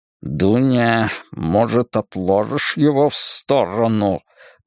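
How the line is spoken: Hiss with restrained anger. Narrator (Russian): прошипел Слейзнер с выражением сдержанной злобы на лице

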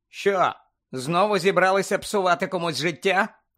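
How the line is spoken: Loud question. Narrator (Ukrainian): голосно запитав Гаррі

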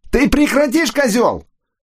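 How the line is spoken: Yelling at top of lungs. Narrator (Russian): Фернандо вопил во все горло

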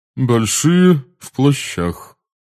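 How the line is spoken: Cold repetition. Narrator (Russian): холодно повторила мадам Боунс

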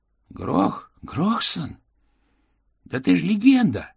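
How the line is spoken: Exclaiming. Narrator (Russian): воскликнул он

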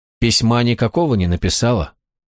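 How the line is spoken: Even-voiced question. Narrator (Russian): все тем же ровным голосом спросил Гвалиор

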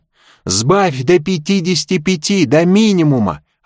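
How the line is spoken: Yelling. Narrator (Russian): орал он

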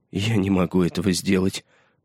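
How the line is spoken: Pitiful whisper. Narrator (Russian): прошептал он жалким голосом

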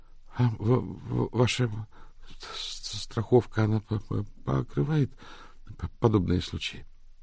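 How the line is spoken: Crushed mumble. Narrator (Russian): убито промямлил Изидор

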